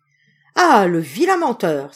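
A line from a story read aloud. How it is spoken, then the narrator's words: Tailor's exclamation. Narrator (French): s'écria le tailleur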